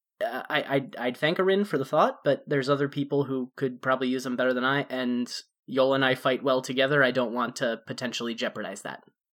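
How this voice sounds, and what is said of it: Character voice, slightly higher pitch. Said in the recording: “get in my Malachi voice, which is just a little bit higher than my normal voice.”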